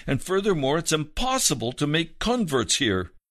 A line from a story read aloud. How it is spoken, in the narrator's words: exclaimed the elderly missionary ladies